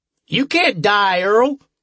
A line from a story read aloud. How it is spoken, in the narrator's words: someone shouted